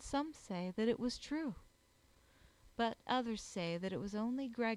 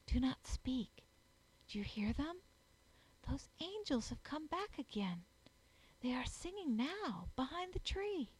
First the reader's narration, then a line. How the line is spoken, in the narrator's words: he whispered very low